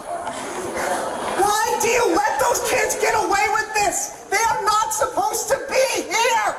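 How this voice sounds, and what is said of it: Shouting angrily. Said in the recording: “lower your voice ... Lower your voice ... I ain't got time to hear you screaming and yelling.”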